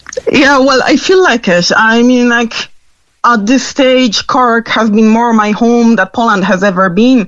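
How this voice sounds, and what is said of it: Non-local foreign accent. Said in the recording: “You just have a different accent”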